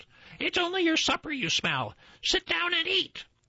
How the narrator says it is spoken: his wife cried out

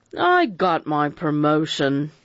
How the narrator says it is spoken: he added in a thick voice

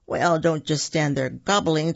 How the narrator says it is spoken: Turkey said with a chuckle

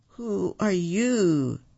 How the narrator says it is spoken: asked Rack, his voice trembling

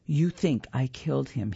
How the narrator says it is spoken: he says

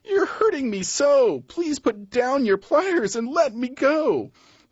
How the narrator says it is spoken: the crocodile cried

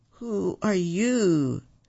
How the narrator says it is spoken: asked Rack, his voice trembling

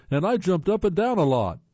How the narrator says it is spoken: yelled

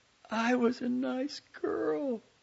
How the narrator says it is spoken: pleaded

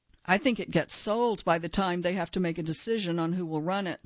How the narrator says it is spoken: said one

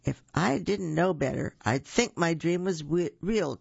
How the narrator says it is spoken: chuckled the zookeeper

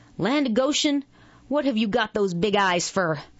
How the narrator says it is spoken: he snapped

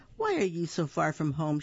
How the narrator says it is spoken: asked kindly

